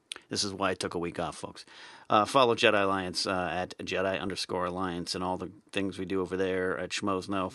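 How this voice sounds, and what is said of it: Strained, fading voice. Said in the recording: “I'm losing my voice tonight. I'm yelling too much ... My voice is gone.”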